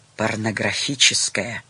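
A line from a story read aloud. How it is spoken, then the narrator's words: Whispered addition. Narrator (Russian): шепотом добавил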